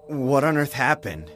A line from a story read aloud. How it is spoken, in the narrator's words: I asked in a trembling voice